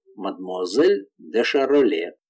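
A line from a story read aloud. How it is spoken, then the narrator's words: Barely audible. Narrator (Russian): сказал Эрман так тихо, что я едва расслышала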